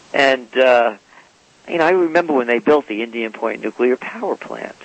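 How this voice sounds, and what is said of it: New York accent. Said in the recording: “I'm a New Yorker, I mean, in case you can't tell by my accent.”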